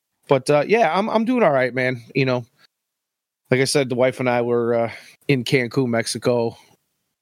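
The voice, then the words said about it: Stuffy, congested voice. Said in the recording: “if I sound a little stuffy ... have a cough or two”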